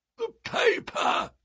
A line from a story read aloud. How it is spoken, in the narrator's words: croaked a voice behind us